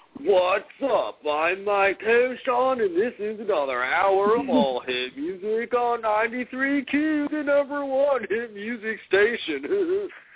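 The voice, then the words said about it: Imitates a radio DJ's voice. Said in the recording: “this is what he sounds like ... That's my best impression.”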